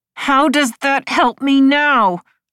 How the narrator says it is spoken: Marcy said through gritted teeth

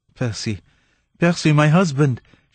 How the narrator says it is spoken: she gasped, faint with the fullness of her joy

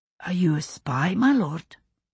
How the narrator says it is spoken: Germaine asked softly

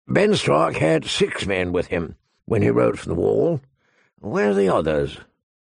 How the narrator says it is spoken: the old bear said gruffly

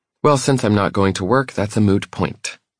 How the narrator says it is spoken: she says stiffly

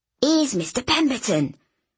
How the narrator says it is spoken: he said in a stage whisper

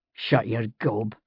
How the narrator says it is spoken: Jamie said, grunting as he wrenched and sawed

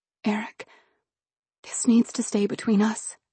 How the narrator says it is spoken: I said quietly, the words coming out more like a request than a command

